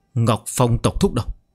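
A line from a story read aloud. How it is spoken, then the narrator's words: Trembling, hurried old voice. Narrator (Vietnamese): Ông run rẩy, râu cũng rung theo, vội vàng nói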